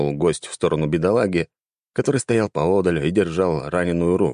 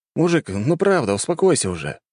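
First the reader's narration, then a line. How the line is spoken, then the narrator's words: Sighing. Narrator (Russian): вздохнул захватчик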